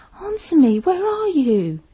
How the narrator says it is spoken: she screamed

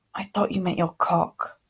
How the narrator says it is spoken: Harry muttered

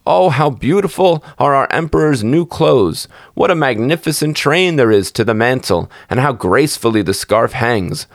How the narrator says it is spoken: All the people standing by and those at the windows cried out

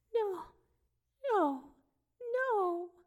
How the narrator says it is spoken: her voice rising as she pleaded

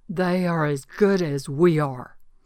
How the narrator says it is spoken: I said to him loudly, my face no doubt red with passion

